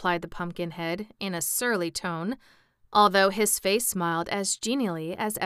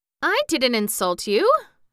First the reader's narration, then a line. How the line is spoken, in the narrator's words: protested Jack indignantly